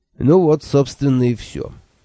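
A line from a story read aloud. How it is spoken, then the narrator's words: Thoughtful. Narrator (Russian): задумчиво сказал Анчифа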